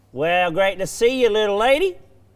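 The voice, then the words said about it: Put-on Texas accent. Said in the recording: “my Texas accent ... You sound a little bit like Terry's TikTok tips. Top 10 tips guy.”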